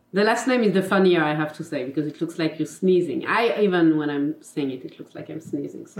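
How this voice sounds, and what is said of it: French accent in English. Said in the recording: “my mother tongue is French, as you can probably see in my accent”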